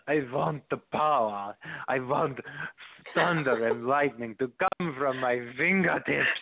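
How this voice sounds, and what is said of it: Imitates a woman's heavy accent. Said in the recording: “I'll talk in her normal sounding voice. She had a heavy accent.”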